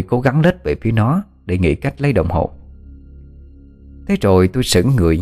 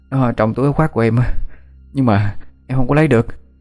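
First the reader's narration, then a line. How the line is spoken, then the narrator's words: Child, breathless panting. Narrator (Vietnamese): Thằng bé thở hổn hển như muốn đứt hơi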